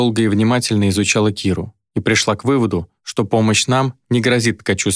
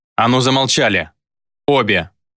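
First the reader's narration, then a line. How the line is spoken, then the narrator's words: Barked shout. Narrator (Russian): гаркнул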